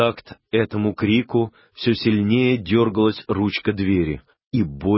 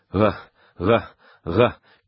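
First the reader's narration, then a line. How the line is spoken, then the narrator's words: Frenzied howling chorus. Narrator (Russian): перешло в исступленный рев, все пассажиры завыли, застонали раздирающим хором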